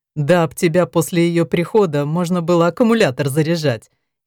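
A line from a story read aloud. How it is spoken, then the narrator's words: Giggling. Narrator (Russian): хихикнул Гервасий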